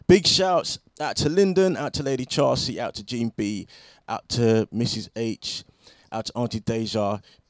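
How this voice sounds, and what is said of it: Croaky morning voice. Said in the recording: “my voice is still croaking all over the gaff”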